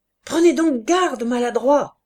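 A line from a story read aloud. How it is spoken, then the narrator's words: Shouting. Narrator (French): cria le lieutenant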